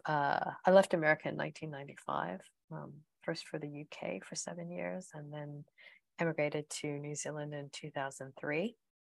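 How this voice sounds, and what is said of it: American accent. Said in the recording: “you can also tell by my accent that I'm American”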